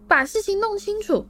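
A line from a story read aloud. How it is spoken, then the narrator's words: Panicked shriek. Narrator (Chinese): 彼得尖叫，再度慌乱地环顾四周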